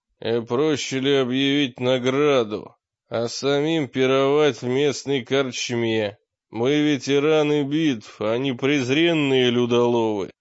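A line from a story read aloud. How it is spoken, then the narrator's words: Fierce voice. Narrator (Russian): Передний всадник ответил свирепым голосом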